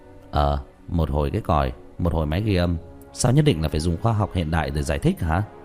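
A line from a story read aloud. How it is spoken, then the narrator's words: Smiling speech. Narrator (Vietnamese): Tứ Bảo mỉm cười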